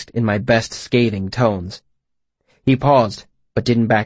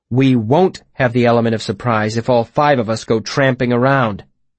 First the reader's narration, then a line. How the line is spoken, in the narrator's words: I said hotly